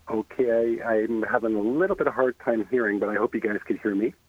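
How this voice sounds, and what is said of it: Slight Canadian accent. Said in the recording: “You do sound a little Canadian”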